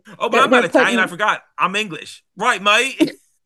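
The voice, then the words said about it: Put-on English accent. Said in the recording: “The accent is back.”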